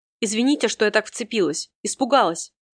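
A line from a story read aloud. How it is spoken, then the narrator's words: Quiet, embarrassed young woman. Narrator (Russian): в смущении проговорила тихо девушка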